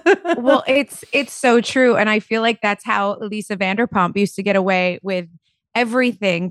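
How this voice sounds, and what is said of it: New Jersey accent. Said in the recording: “I'm over here with a Jersey accent”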